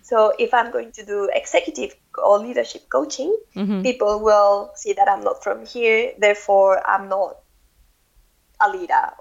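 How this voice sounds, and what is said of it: Non-native English accent. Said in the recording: “I've always been very self-aware of my accent in that I'm not from, like, English is not my native language, and people will notice”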